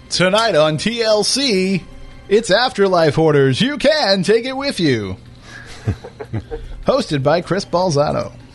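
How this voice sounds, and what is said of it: Cheesy TV announcer voice. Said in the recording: “my lame announcer voice”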